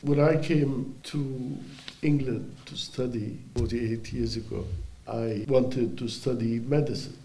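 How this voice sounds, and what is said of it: Hoarse, congested voice from cold. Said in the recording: “I've had a terrible cold for the past 3 days, so forgive my voice.”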